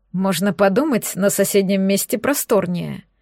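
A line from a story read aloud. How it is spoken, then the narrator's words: Skeptical tone. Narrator (Russian): скептическим тоном произнес Черный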